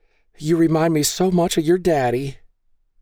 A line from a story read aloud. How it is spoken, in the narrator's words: Maggie cried, her mascara leaving black tracks down her face